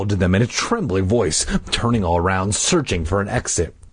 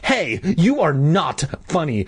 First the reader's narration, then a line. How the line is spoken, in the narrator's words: I screamed angrily